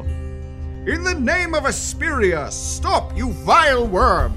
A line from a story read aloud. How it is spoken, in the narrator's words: the second one will also yell